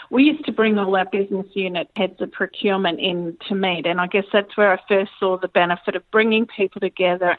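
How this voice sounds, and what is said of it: Australian accent. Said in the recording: “when I moved back to Australia, you probably picked up on the accent there”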